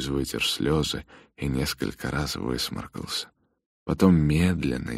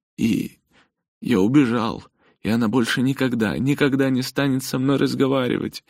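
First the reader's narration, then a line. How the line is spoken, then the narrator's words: Sobbing. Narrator (Russian): Льюис снова разрыдался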